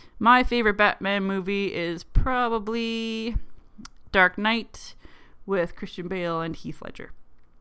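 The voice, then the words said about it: Canadian accent. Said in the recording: “my accent, how I pick up words like pop and bar and boat and pants and just have a really weird Canadian accent.”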